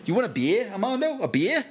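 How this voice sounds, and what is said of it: Put-on Australian accent, rising intonation. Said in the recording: “I can do Australian better... your voice rises at the end of everything you say”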